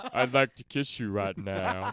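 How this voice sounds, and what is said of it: Imitates another person's voice. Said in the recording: “do my sexy voice ... You use a sexy voice? ... It's his imitation of Jeff. ... There's a little Forrest Gump in there.”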